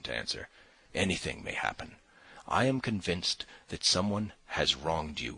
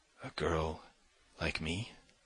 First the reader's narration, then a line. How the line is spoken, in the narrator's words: She whispered, hardly audibly